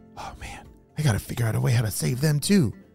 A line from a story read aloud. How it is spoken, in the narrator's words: Phoenix whispered to himself